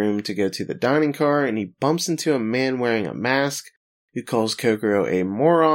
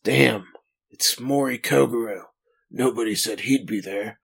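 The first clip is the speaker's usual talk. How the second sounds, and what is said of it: Puts on a character's voice. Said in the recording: “doing an impersonation.”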